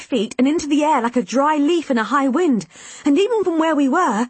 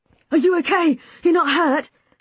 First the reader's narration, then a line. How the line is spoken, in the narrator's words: Callum asked, anxiously